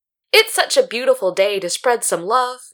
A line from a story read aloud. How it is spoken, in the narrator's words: Myungchun said brightly